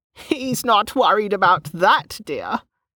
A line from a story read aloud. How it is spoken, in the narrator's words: Gemma said, cackling again